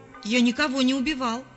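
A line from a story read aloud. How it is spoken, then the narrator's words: Shouted. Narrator (Russian): закричал Давид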